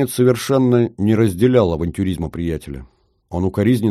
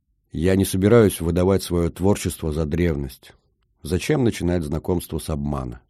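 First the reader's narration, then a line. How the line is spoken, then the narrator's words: Ordinary tone. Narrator (Russian): продолжил уже обычным тоном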